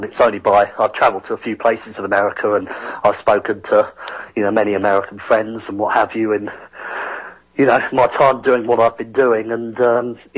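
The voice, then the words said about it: London English accent. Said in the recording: “I love your accent ... I've got a more London accent, and a lot of Americans think that that sometimes sounds like Australian as well”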